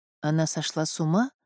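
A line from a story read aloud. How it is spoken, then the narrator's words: Timid suggestion. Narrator (Russian): робко предположил принц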